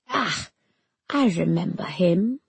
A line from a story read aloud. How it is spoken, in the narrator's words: muttered Kamala